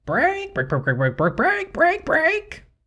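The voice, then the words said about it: Imitates a chicken clucking. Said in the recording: “my chicken impersonation. Good, huh?”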